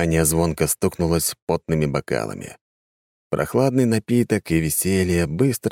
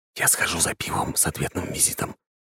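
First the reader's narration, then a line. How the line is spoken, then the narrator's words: Whisper in ear. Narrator (Russian): шепнул Роман на ухо жене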